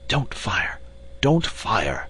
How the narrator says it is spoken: whispered Lord John

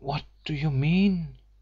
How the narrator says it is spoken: she breathed

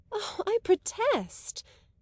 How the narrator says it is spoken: earnestly cried

